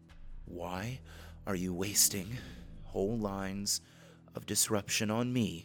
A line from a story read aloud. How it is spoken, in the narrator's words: she asked between gasps